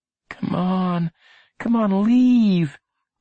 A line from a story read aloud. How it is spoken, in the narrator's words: Lenny begged beneath his breath